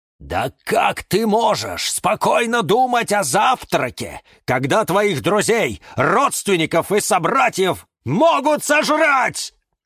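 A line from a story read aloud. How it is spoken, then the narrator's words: Shouted. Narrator (Russian): закричал кактус Кирилл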